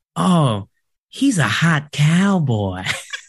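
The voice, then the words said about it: Put-on Southern accent. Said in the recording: “said in her southern accent ... did you have to do a southern?”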